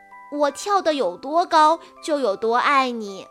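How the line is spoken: Little rabbit laughing, bouncing. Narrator (Chinese): 小兔子笑着跳上跳下的说

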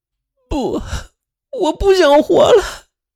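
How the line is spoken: Bursting into wails. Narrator (Chinese): 林雨欣才哇的一声哭了

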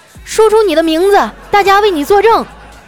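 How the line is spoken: Loud shout. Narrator (Chinese): 眼镜男 大声的喊

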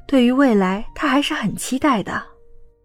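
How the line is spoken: Soft and gentle. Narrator (Chinese): 倪清欢轻声温柔道

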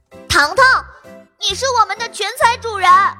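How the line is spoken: Loud shout. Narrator (Chinese): 托比大喊

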